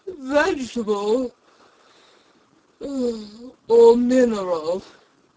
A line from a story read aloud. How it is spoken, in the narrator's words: he said, yawning at every other word